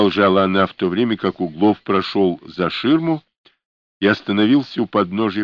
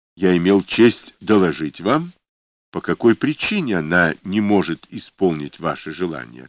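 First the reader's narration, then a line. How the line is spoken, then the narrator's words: Plain. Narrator (Russian): ответил Углов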